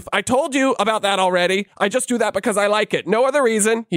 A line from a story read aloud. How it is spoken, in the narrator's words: he shouted